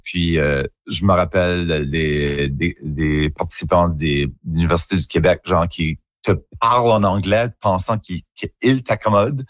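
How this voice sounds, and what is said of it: Acadian French accent. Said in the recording (French): “mon accent d'Acadie... un accent un petit peu plus coloré, un petit peu plus arrondi”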